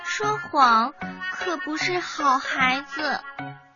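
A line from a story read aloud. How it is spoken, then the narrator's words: Quiet, soft. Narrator (Chinese): 蜜蜂小声的说道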